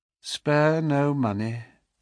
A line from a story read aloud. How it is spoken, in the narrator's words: she said in a dead, even tone